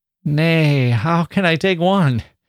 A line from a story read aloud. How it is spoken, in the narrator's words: He said, laughing uneasily